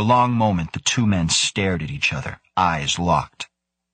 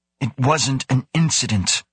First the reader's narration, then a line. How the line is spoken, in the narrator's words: Grant snapped